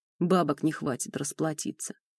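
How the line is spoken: Bearded man grumbling. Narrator (Russian): пробурчал бородатый

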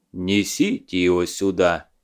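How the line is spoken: Sad demand. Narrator (Russian): печально потребовал Илья

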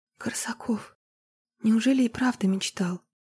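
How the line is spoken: Whisper. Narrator (Russian): прошептала она

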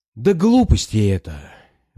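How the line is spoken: Weary objection. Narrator (Russian): возразил я устало

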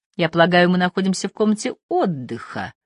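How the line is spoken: Icy, emphatic tone. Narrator (Russian): ледяным тоном подчеркнул он

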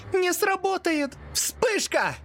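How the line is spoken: Desperate shout. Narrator (Russian): Отчаянный крик Лю

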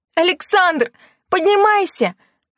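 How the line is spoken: Shriek. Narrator (Russian): визжала она

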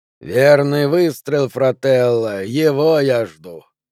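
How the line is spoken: Grumbled. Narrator (Russian): проворчал Федерико

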